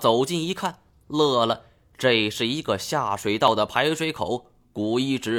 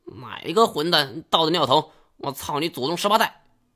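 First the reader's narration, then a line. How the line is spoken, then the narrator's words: Echoing roar. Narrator (Chinese): 这一嗓子吼出去，在空旷的通道里回荡开来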